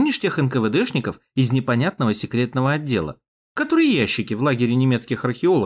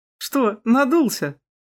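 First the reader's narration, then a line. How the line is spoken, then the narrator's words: Woman chuckling. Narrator (Russian): хохотнула снайперша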